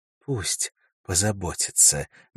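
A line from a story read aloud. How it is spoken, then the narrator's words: Soft. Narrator (Russian): мягко сказала Элис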